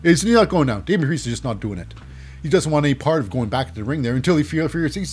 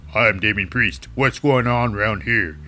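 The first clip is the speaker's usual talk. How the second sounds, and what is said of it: Deep put-on imitation voice. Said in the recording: “my deep voice is not gone today”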